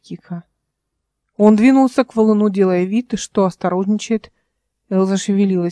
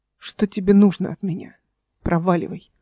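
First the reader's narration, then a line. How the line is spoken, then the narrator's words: Breathless, voice breaking. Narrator (Russian): Выдохнула она, и ее голос сорвался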